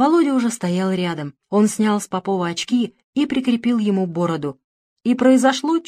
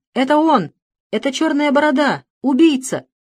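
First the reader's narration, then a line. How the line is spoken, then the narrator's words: Crowd shouting. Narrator (Russian): закричали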